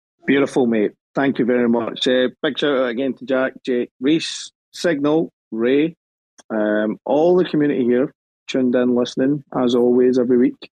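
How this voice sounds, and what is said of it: Scottish accent. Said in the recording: “my bland Scottish accent”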